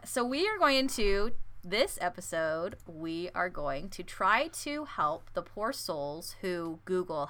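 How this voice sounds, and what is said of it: Speaks with a noticeable accent. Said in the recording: “with my accent”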